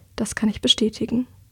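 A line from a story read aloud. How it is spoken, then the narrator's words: Quiet. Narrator (German): sagt sie leise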